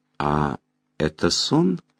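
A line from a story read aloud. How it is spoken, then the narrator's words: Quiet question. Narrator (Russian): тихо спросила Меломори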